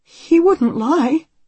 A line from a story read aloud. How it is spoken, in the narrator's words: Anne says anxiously